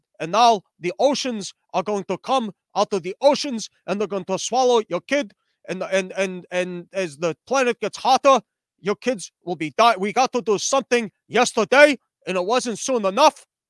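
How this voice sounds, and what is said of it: Imitates another person's voice. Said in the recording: “doing a Jackie Mason impression.”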